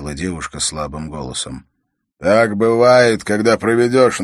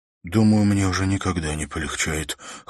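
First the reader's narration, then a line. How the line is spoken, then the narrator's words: Hoarse muttering. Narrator (Russian): хрипло пробормотал Уилл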